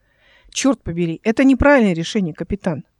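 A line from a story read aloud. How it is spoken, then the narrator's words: Sharp. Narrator (Russian): резко произнесла Эл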